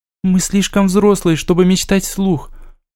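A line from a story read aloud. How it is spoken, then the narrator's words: Sincere and very sad. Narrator (Russian): произнесла она искренне и очень грустно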